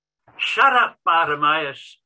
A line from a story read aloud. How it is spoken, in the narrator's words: they yell